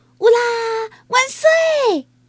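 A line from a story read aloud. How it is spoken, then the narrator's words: Shouting. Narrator (Chinese): 他大喊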